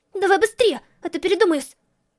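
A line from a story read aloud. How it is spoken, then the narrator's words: Through gritted teeth, swallowing. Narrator (Russian): Процедила та, громко сглатывая слюну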